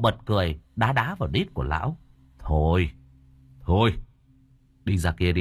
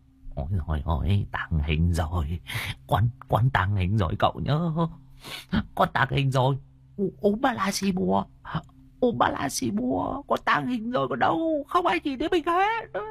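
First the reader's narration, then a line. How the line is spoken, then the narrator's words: Old man muttering. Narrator (Vietnamese): Tiếng của lão vẫn còn lẩm bẩm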